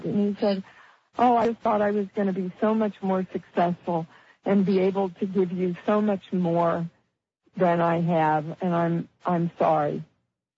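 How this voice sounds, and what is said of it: Emotional, choked-up voice. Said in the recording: “my heart just welled, so you can hear it in my voice again... Yeah, I hear it.”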